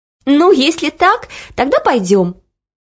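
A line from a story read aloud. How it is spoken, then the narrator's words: Laughing. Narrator (Russian): рассмеялась Оля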